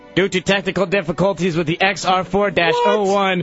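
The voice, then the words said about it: Imitates another person's voice. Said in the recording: “In my Mike Sika voice,”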